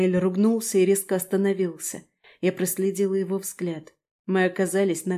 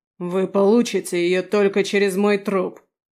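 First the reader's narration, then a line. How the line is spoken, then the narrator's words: Barked, demon. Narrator (Russian): рявкнул демон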